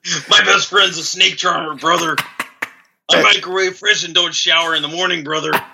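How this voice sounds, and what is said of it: Hulk Hogan impression. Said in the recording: “Your Hulk Hogan impression. Very strong. ... Hulk Hogan in the house.”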